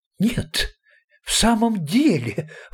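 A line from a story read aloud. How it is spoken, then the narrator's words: Delighted exclamation. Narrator (Russian): воскликнул откровенно обрадовавшийся господин Марабу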